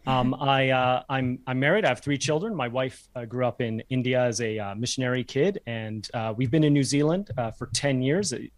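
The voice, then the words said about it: Canadian accent. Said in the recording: “My accent, you might have noticed, is from Canada.”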